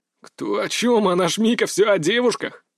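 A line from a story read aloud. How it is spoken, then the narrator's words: Chuckling. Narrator (Russian): хохотнул сидевший на лавке Идзуми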